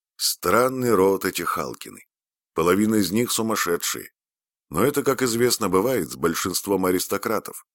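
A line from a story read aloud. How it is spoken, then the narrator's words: Plain. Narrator (Russian): сказал он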